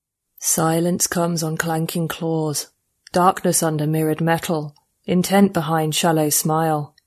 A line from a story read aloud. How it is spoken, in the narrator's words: said, a subsonic rumble pitched up to human hearing by a transcoder